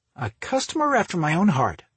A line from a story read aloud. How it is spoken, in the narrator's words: Dorothy cheerfully replied with a quick grin